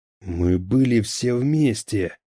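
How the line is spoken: Hoarse rasp. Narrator (Russian): прохрипел он

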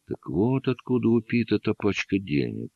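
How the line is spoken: Drawn-out drawl. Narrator (Russian): протянул Оуэнс

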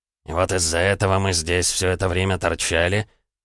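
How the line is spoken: Hissed. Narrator (Russian): прошипел Репнин

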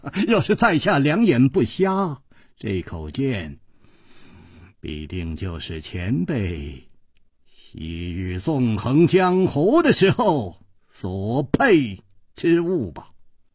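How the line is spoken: Smiling. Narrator (Chinese): 他笑了笑，接着说

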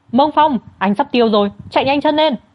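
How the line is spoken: Screaming. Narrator (Vietnamese): Văn Thư Ca hét toáng

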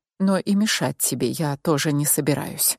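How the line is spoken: Whisper in ear. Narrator (Russian): Мик прошептал на ухо

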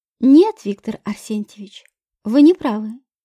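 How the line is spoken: Calm. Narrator (Russian): сказала я спокойно

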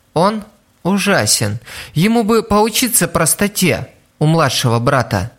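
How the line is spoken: Sighing speech. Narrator (Russian): Пьеро еще раз вздохнул и сказал

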